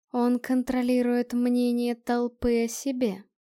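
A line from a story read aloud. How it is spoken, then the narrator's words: Plain. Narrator (Russian): ответила Диана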